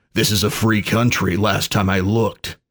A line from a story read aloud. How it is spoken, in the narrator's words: said Dax